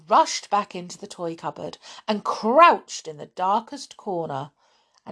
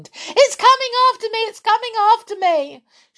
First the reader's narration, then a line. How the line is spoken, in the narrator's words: Amelia Jane screamed